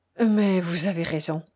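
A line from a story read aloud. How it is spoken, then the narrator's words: Faint contented sigh. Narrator (French): répondit-il en laissant échapper un imperceptible soupir de contentement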